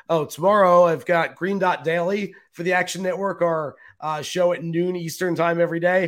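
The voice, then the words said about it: Hoarse, worn-out voice. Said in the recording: “my voice is so good right now ... I have no voice left and can't talk”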